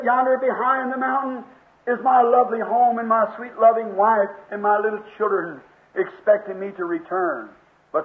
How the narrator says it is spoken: said

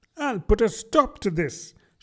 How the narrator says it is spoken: she said to herself

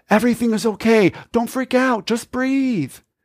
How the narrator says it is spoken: telling her sweetly

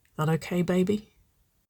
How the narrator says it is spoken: Nicole murmured, the heated breath of her words

